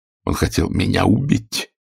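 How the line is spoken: Strangled voice. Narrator (Russian): отвечал сдавленным голосом

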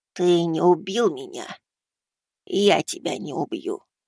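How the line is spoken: Hoarse rasp. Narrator (Russian): прохрипел я

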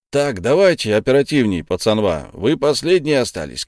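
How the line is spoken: Shouting from sideline. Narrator (Russian): крикнул с бровки Игорь Васильевич

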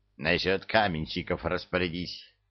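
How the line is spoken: Grumbled. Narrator (Russian): буркнул ей Люцифер

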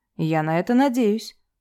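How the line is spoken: Calm, lawyer. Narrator (Russian): спокойно сказал адвокат

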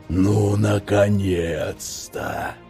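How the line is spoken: Hissing. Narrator (Russian): прошипел бывший первый помощник Инквизитора

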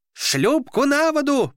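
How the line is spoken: Shouted. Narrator (Russian): прокричал он

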